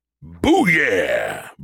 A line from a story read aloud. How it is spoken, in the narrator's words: Brody roared